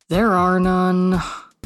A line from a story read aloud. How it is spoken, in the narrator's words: the dour goth sighed